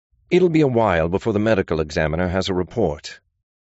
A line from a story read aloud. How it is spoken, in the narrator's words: Gideon said, his tone brusque